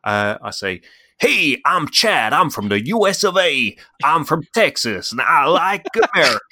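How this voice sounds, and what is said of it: Put-on wandering American Southern accent. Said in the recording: “I'll do my excellent American accent ... That accent went places ... I think you started in the South and then became Sacha Baron Cohen ... And then back down to the South.”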